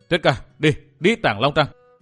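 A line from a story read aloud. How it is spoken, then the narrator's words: Raised voice. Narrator (Vietnamese): chàng cao giọng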